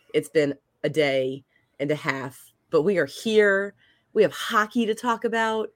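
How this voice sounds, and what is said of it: Tired, congested voice. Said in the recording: “If you can't hear it in my voice, I'm tired, I'm exhausted, I'm stuffy.”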